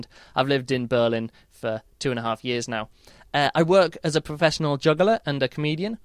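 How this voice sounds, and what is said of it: English accent. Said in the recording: “you can probably tell from my accent that I'm not German... I'm actually from England.”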